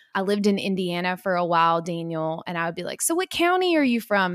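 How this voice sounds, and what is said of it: Kentucky accent. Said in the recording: “I grew up in Kentucky. If you can't hear it in my voice,”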